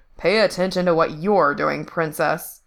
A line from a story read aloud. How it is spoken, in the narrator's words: D grumbling at Frank